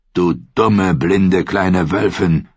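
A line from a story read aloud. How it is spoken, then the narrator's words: Harsh rasping male voice. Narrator (German): Seine Stimme klang hart und rau wie eine Eisenraspel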